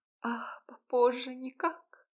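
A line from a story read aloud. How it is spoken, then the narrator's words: Moan. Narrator (Russian): простонала она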